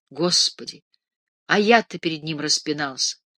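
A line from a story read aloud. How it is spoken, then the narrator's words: Plain. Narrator (Russian): сказал Покровский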